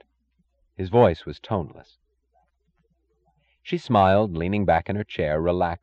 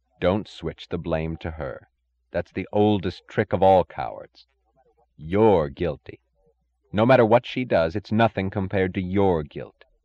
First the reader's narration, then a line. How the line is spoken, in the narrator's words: He heard another, louder voice, saying evenly